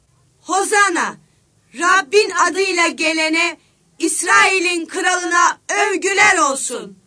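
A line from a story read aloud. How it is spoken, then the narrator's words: Crowd shouting. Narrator (Turkish): diye bağırıyorlardı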